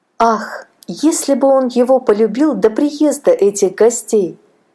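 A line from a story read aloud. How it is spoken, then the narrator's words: Sigh. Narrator (Russian): вздохнула Аннушка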